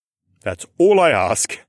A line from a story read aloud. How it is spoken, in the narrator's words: he chuckled